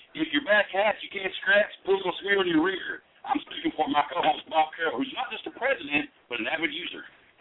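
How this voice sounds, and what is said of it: Cowboy-movie style accent. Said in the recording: “I'm gonna rip on your accent a little bit there. To me, it's an accent. ... It's like right out of a cowboy flick or something”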